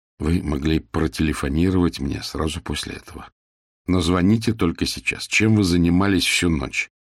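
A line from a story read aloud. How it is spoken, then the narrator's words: Sighing. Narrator (Russian): Кнопф вздохнул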